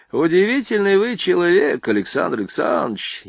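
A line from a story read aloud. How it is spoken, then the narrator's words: Snide. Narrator (Russian): ехидно обратился к нему Борейко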